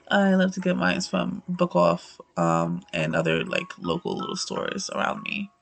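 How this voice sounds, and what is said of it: Very raspy voice. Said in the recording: “Oh, I hate my voice. I apologize. Like, I sound hella raspy.”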